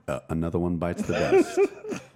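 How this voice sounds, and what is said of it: Sexy, sultry voice. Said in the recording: “I'm saying it with my sexy voice, too.”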